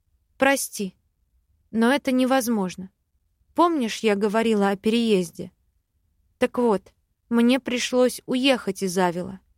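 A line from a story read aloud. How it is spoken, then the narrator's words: Plain. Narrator (Russian): ответила я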